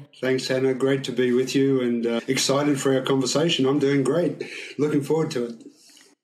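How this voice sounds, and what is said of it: Slight Australian accent. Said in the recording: “What is still typical Australian about you? ... My accent a little bit”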